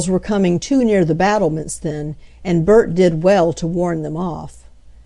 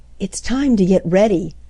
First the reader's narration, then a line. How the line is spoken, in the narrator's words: whispered Nan to Bert, for the parade had been kept secret from the grown folks